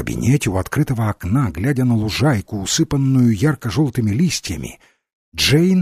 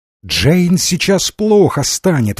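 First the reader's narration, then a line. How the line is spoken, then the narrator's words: Exclaiming. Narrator (Russian): воскликнула хозяйка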